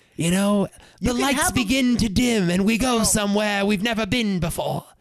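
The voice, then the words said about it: Bad Nicole Kidman impression. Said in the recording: “That's a bad Nicole Kidman impression.”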